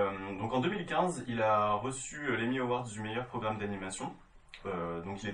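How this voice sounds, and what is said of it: Usual voice. Nothing is said of it.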